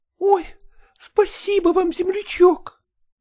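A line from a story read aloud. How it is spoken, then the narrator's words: Joyful. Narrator (Russian): У Аграфены ёкнуло сердце при вести о месте, и она радостно сказала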